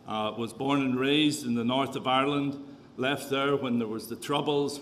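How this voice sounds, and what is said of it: Irish Canadian accent. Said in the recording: “is this really a Canadian accent that we've got here today? ... I'm Irish Canadian”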